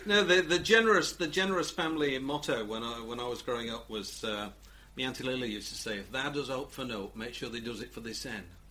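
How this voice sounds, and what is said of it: Broad Yorkshire accent. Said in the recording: “Give us a Yorkshire accent, ... I didn't get a word of that.”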